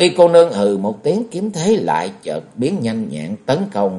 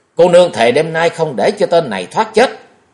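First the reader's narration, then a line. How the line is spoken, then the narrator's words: Angry shout. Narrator (Vietnamese): giận dữ, vừa tức liền quát ra một tiếng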